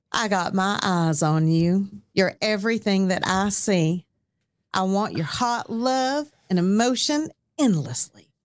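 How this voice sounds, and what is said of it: Southern East Tennessee accent. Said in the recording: “she's going to read a verse in her wonderful Southern accent. ... East Tennessee.”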